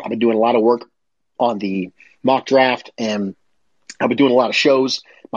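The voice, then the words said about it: Congested, sniffly, strained voice. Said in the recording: “I apologize, by the way, for sniffling today. I'm fighting somewhat of a little bit of a cold ... My voice is starting to fail me. I just have a little bit of a sniffles ... I'm doing my best to breathe through my mouth, but then that's drying out my throat even worse.”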